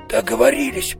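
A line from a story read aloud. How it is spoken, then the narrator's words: Hoarse, spitting noisily. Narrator (Russian): прохрипел он, шумно отплевываясь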